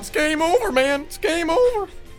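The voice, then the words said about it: Shaggy-like panicky cartoon voice. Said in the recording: “Did you just do a Shaggy impression? ... that guy kind of sounds like Shaggy.”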